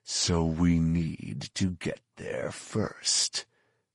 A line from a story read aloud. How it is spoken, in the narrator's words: Fett growled